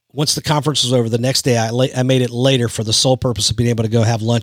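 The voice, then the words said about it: Rough, strained voice. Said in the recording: “I ended up getting sick. That's why my voice is a little jacked up today”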